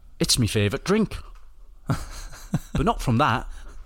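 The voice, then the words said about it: Attempted Irish accent. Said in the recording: “Was that an Irish accent? ... No, I tried doing it.”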